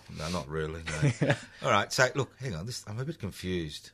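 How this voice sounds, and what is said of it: Broad accent. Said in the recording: “it's the accent. It's the accent. This is a broad accent. A broad ... Accent.”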